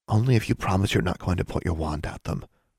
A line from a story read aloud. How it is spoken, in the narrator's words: Anna whispered back